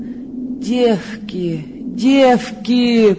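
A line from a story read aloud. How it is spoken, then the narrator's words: Moaning. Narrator (Russian): простонала она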